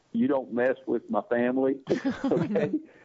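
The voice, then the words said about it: Imitates another person's voice. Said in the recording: “my best Marlon Brando impression.”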